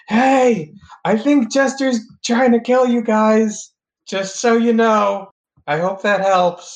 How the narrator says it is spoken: shout

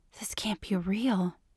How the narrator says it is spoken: she whispered

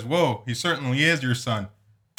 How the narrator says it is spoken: Mom laughs and says

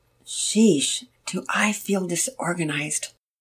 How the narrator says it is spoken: Mama Peters said softly, mostly to herself

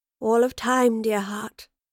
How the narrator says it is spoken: the Professor replied in a melancholy tone

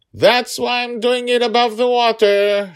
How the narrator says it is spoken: she yelled down at him

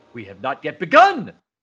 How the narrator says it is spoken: yells the Romulan commander

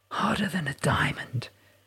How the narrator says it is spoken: he whispered

